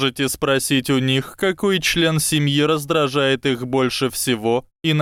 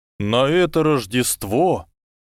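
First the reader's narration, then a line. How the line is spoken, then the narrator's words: Low, chesty voice. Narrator (Russian): низким грудным голосом сказал Гарри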